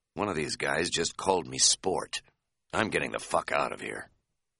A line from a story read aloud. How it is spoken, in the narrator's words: said in a whisper